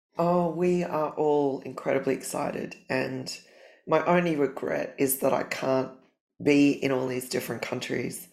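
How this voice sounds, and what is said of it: Congested, sick-sounding voice. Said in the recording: “I've got a cold, so you must apologize for my voice.”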